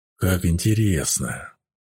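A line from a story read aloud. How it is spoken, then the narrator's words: Hissed. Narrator (Russian): прошипел Дивар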